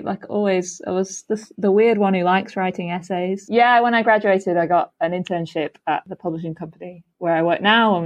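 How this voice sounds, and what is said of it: Slight northern Lancashire accent. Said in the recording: “a northern twang in your accent ... This is a slight Lancashire twang.”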